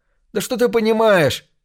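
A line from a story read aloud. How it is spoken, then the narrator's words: Yell. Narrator (Russian): заорал Джон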